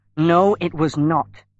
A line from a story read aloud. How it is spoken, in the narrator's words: he replied angrily